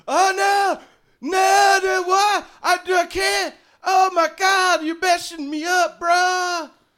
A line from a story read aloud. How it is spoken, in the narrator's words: Crandon starts to yell